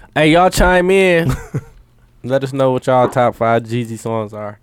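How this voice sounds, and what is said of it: Imitates another person's voice. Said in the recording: “his best impression of Jeezy”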